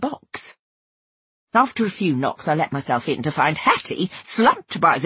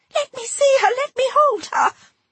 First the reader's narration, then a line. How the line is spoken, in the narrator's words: Hattie cried